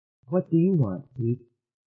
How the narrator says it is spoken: asked Bronowski softly

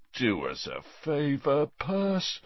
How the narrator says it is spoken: said Bill, yawning

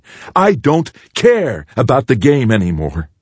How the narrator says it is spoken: shouted at the boy

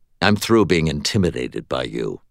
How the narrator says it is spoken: I replied, and to my surprise, it came out in a calm and reasonable tone, rather than a defiant one

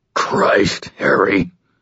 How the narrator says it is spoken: came a choking voice

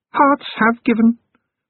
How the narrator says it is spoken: Tears of the Mushroom said in her strange voice, like a living filing cabinet

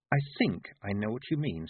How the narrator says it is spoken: said Tiffany

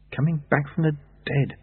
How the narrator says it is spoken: Lobsang murmured

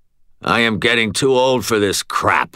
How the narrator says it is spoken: growled

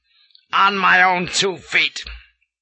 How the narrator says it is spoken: snapped

